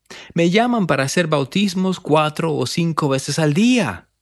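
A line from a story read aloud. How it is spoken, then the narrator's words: Man exclaiming. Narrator (Spanish): exclamó él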